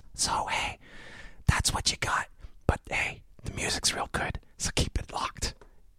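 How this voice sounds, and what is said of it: Whispered, voiceless speech. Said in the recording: “I'm gonna do this a whisper episode because, well, I've got laryngitis.”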